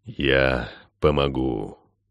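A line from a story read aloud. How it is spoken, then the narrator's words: Sudden whisper, animal. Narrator (Russian): шепнул вдруг зверь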